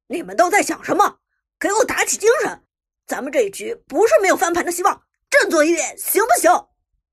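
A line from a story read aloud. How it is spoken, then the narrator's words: Angry roar. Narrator (Chinese): 一声怒吼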